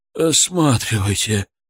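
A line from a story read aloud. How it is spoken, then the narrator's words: Moan. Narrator (Russian): простонал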